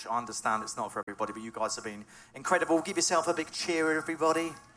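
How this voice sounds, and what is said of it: English Norfolk regional accent. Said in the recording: “As you can tell from my accent, I'm not from around this way. I'm from way down south. ... I've come from Norfolk, Norwich.”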